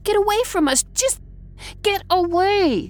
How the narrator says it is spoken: She shrieked

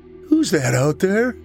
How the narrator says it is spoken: I begged

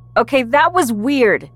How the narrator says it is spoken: I shouted at Mariana over the music

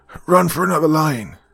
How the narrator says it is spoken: called eagerly down

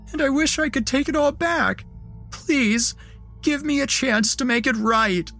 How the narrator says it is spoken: she had sobbed

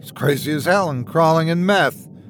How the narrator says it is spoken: He blurted out

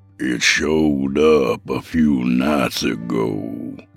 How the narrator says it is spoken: he said in an ominous tone

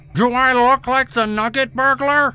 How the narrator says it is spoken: He screamed in the child's face

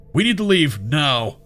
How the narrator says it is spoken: he yelled

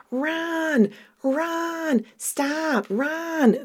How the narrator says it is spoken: the Sammy doll, and it's still screaming

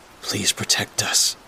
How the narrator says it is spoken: Rex whispered to himself

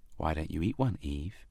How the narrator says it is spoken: suggested Adam gently

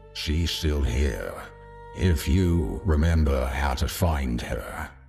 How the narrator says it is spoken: the man said softly

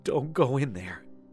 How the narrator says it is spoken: Daniela sobbed and said

